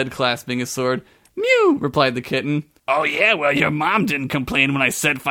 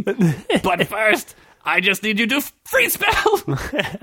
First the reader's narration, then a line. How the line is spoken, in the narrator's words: He yelled